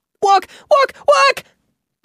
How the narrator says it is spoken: Bobbin shouted

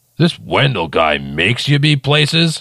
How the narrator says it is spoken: Ogopogo scoffed

